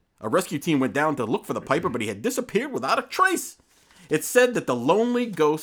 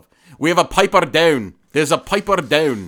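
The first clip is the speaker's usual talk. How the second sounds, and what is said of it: Attempted Scottish accent. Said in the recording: “that's a hard accent to reproduce, is the Scottish accent ... I can't really do it very well.”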